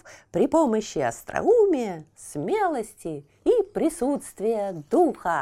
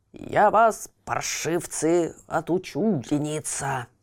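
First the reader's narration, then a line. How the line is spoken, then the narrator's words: Ferocious growl. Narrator (Russian): свирепо зарычал он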